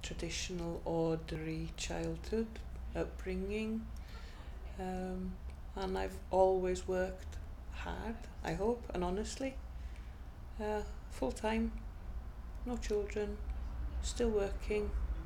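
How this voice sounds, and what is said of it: Welsh accent. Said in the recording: “I'm Welsh, that's probably obvious by my accent.”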